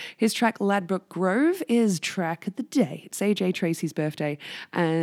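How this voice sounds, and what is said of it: Usual voice. Nothing is said of it.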